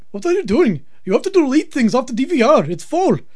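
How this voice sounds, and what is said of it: Irate put-on Indian accent. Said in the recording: “I have a new foreign character called Irate Indian... he's got an accent”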